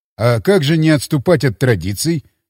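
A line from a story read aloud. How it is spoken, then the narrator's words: Grumbling mutter. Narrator (Russian): пробурчал я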